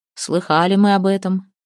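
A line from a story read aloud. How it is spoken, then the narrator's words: Muffled voice behind mask. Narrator (Russian): глухо из-под личины ответил медведь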